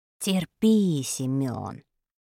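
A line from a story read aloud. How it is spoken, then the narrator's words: Mumbling, mouth full. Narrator (Russian): пробурчал Вадик, набивая рот бутербродом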